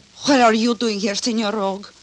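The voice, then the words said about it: Broken-down put-on foreign accent. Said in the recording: “you can drop that broken-down accent”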